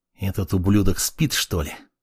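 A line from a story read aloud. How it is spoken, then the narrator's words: Angry mutter. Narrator (Russian): Злобно пробормотал юноша со сломанным носом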